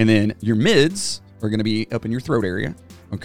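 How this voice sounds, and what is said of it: Usual voice. Nothing is said of it.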